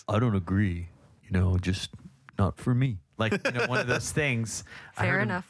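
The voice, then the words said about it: Calm, soothing imitation of another's voice. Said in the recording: “You have a voice that's calming. You have a soothing voice ... you just don't have an abrasive voice ... my Chris impersonation”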